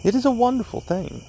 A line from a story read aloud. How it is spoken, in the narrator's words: he cried